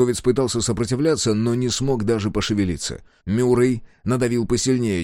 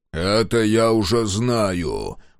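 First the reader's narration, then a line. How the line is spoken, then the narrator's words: Growl. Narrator (Russian): прорычал Мюррей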